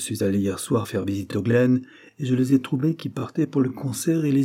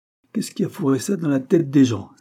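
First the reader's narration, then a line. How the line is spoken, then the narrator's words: Exclaiming. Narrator (French): s'écria-t-il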